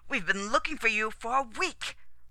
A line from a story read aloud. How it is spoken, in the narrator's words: Rostov snapped